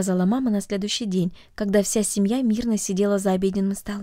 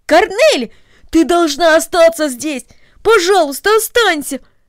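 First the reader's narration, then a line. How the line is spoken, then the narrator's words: Exclaiming. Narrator (Russian): воскликнул Дино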